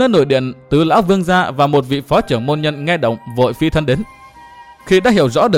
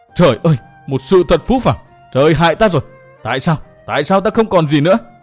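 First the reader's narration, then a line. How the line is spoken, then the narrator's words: Anguished scream. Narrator (Vietnamese): chàng hét lên, giọng chàng thật là thê thảm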